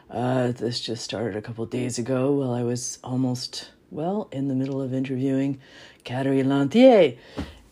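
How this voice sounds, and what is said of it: Congested, chesty voice. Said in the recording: “I'm sure you could hear from my voice that I have some kind of lung congestion, coughing and such”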